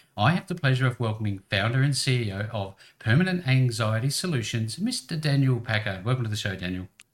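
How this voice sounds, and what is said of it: Light, friendly Australian accent. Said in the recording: “you have a very welcoming Australian accent ... you have that lighter, more friendlier Australian accent, not the like heavy duty strong, ... Like oi, oi version”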